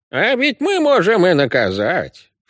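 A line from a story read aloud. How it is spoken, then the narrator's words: Insinuating creaky old man. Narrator (Russian): вкрадчиво проскрипел дед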